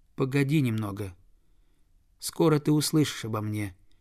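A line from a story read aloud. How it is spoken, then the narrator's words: Quiet voice. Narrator (Russian): тихим голосом сказал он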